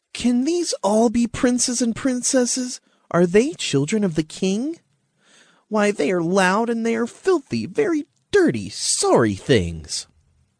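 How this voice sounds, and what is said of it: Whiny, wheezy character voice. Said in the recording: “there wheezed a whiny voice”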